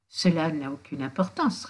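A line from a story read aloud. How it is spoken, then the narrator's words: Soft reply. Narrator (French): répondait-elle doucement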